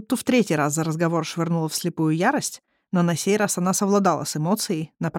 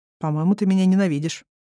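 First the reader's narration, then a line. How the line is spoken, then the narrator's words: Calm but joyless prince. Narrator (Russian): спокойно, хотя и безрадостно ответил принц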